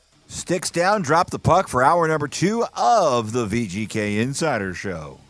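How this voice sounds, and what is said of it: Corny radio narrator voice. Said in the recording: “What was that voice? ... My corny radio narrator voice.”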